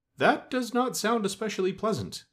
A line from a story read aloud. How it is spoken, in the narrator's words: said the little man, looking at the one with the star uneasily